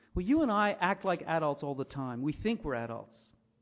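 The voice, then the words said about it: American accent with strong R's. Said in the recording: “my American accent throws those R's into real confusion”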